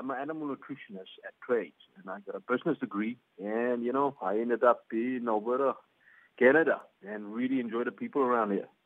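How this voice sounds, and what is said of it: Hybrid South African-Canadian accent. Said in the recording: “my favourite accent that I've ever heard, sort of semi-hybrid South African-Canadian thing”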